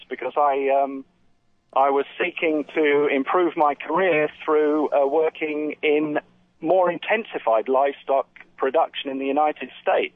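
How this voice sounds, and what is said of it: English accent. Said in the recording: “that's an English accent I can hear there.”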